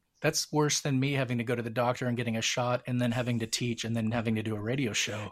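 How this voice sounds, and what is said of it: Slightly scratchy, strained voice. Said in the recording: “my voice is a little scratchy today, is I'm too much talking for me”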